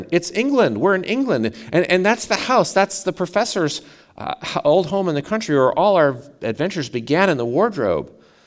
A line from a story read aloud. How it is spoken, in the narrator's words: exclaimed Peter, one of the children